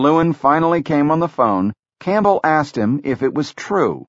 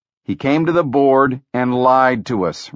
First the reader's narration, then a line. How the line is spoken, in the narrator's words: Rock growled